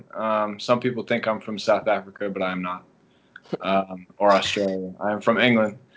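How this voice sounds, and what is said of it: English accent. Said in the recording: “I'm from England originally, if you didn't guess with the accent.”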